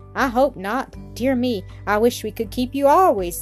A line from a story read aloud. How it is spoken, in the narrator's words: exclaimed